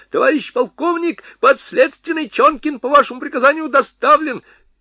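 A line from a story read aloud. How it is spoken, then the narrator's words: Shrill shout. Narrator (Russian): визгливо закричал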